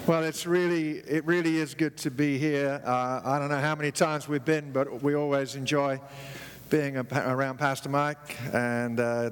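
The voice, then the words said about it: English-sounding accent. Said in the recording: “How many of you can still hear the accent thing going on? ... we just got back from England a few weeks ago, so I had my accent refurbishment surgery”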